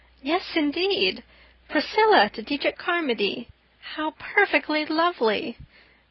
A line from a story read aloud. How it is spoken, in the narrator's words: exclaimed Anne, her gray eyes lighting up until they looked like evening stars